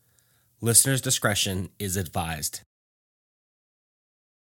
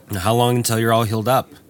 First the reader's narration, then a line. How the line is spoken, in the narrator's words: the boss asked